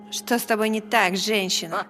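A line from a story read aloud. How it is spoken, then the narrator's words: Laughing. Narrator (Russian): В гостиной Роланд снова рассмеялся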